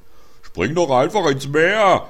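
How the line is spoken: Helmsman roaring. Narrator (German): brüllte Pitt, der Steuermann

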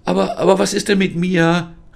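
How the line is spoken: Calling out. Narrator (German): rief Lisa

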